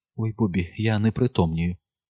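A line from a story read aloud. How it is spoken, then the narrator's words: Thin little whisper. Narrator (Ukrainian): вона тоненьким голоском прошепотіла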